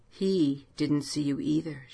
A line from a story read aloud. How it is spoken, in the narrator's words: whispered